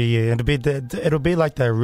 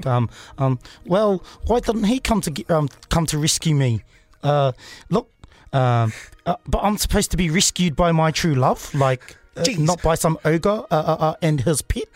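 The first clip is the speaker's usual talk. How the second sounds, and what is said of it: Aggressive put-on Kiwi accent. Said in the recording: “real aggressive Kiwi accent.”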